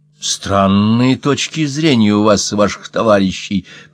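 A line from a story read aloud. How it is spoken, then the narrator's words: Through gritted teeth. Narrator (Russian): процедил Раллингтон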